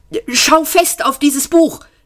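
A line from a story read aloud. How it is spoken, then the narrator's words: Urgent hiss. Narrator (German): zischte er beschwörend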